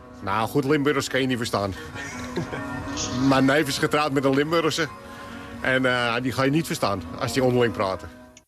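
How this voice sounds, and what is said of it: Heavy Amsterdam accent. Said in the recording (Dutch): “Heb jij zelf een accent? ... Heel zwaar. ... Amsterdams accent”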